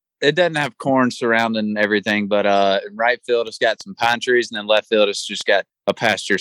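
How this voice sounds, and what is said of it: Southern US accent, Alabama. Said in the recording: “I think we can tell from your accent, you're from the South, you're from Alabama.”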